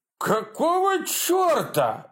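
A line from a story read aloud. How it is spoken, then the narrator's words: Roared. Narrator (Russian): взревела мамаша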